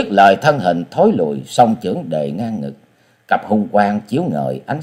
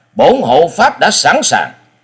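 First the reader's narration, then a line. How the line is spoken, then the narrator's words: Loud shout. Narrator (Vietnamese): Sinh Tử Phán Hồ Bưu quát lên một tiếng lớn và nói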